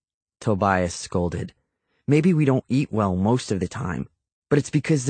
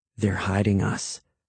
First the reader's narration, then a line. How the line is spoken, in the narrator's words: I muttered to the other boys